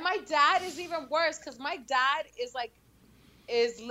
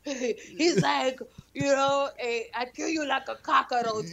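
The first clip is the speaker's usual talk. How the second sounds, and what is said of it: Imitates father's thick accent. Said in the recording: “my dad has that thick ass accent”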